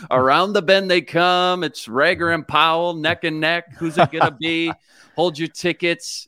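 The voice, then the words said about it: Horse racing announcer voice. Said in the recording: “Give us a little quick horse racing announcer voice.”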